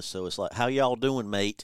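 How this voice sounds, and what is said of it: Mixed Texas and English accent. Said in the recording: “his accent is half Texas, half English ... It's just like a conglomeration”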